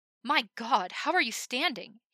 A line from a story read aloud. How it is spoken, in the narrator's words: he cried